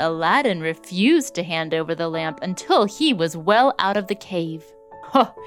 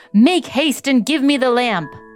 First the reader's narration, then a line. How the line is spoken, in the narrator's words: The magician cried out in a great hurry